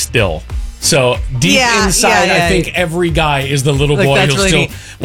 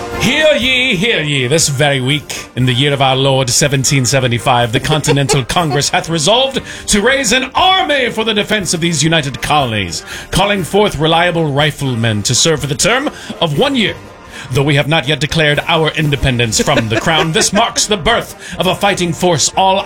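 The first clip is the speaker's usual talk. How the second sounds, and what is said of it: Old-fashioned town crier accent. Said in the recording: “I cannot do an accent for the life of me... you have the floor.”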